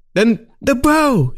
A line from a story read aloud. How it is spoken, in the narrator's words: he screamed